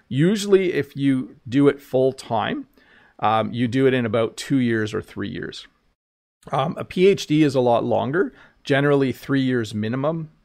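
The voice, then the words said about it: French accent. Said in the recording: “your French accent is really sweet”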